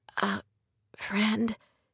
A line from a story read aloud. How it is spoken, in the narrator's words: she whispered